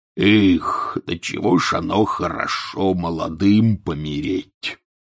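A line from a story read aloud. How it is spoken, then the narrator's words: Sudden mutter. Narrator (Russian): пробормотал вдруг Хагрид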